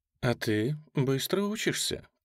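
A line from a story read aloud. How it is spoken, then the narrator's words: Breathless. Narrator (Russian): произнесла фон Хойзере, переводя дух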